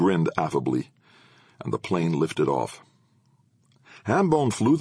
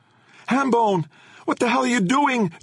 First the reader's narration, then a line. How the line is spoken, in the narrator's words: Jenna shouted